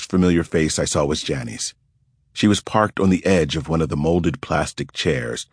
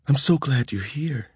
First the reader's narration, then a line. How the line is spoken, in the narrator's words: she whispered